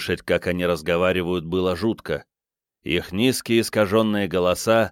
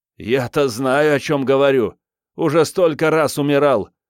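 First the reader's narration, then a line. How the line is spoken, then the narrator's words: Laughing. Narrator (Russian): сказал он, расхохотавшись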